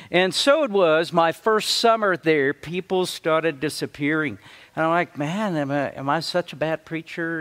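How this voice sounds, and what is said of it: Speaks with a noticeable accent. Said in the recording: “don't people understand my accent?”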